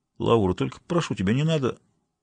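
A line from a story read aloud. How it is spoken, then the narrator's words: Sudden mumble. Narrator (Russian): Клавдий вдруг пробормотал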